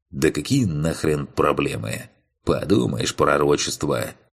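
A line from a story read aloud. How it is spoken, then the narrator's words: Snort. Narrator (Russian): хмыкнул он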